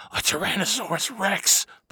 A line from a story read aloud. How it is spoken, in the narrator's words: Bobby whispered